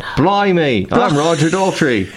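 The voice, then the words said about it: Joke British accent. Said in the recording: “What's my Roger Daltrey accent? ... your default joke British accent is always Mancunian”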